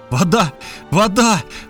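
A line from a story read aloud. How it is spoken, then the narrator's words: Exclaimed. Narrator (Russian): воскликнул я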